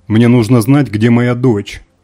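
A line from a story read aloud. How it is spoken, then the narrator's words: Shouting. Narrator (Russian): выкрикнул Морок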